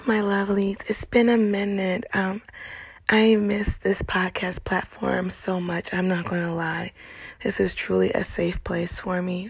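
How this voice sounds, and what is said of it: Congested, tearful voice. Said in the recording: “My voice is kind of in a funky place right now, I'm getting over a little cold ... I just had a good old cry session ... I'm still a little, a little tearful”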